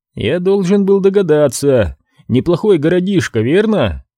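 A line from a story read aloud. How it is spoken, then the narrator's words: Embarrassed laugh. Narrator (Russian): Рассмеявшись смущенно, Кэл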